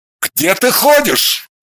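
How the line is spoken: Yelling. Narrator (Russian): завопил он

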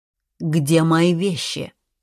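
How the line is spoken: Stern questioning. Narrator (Russian): строго вопрошала я

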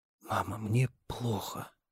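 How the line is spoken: Moaning young man. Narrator (Russian): простонал парень

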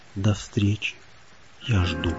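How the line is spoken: Whispered to the sea. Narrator (Russian): Мальчик прошептал морю

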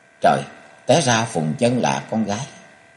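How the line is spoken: Trembling mutter. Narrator (Vietnamese): Cung Cừu chân tay run bần bật, chàng lẩm bẩm

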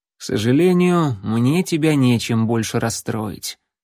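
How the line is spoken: Sad. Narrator (Russian): печально произнес ассасин

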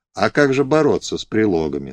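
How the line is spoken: Plain. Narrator (Russian): сказал отец Григорий

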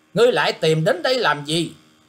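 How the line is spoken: Sudden scolding snap. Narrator (Vietnamese): Cô gái che mặt bất thần nạt lên rằng

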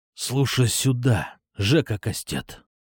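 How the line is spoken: Growl in ear. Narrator (Russian): На ухо ему прорычал я

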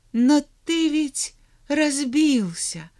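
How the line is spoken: Sad child's reply. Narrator (Russian): грустно ответил мальчик

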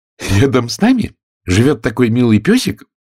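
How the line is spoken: Joyful. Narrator (Russian): радостно продолжала Алиса

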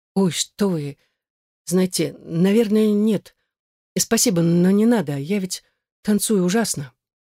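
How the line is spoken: Flustered mumbling. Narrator (Russian): сбормотал я всякую ерунду

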